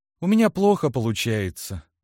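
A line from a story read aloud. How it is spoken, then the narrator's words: Sighing. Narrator (Russian): вздохнула она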